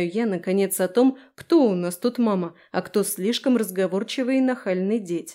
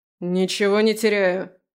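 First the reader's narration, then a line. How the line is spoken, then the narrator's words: Unimpressed bark. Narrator (Russian): рявкает Димасик, не впечатлившись моим раздраженным тоном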